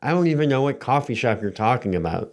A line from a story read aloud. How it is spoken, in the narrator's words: said Tim Barlow